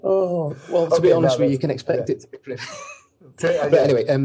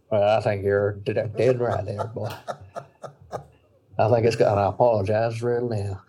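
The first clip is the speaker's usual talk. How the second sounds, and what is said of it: Weak put-on Southern accent. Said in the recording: “poor Southern accent”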